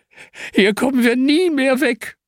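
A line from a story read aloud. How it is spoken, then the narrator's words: Whining. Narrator (German): jammert Hanna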